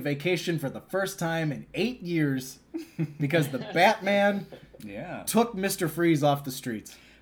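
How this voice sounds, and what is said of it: Imitates another person's voice. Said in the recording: “That's not a very good... I took a stab at it for the first time... my Bob Hastings impression”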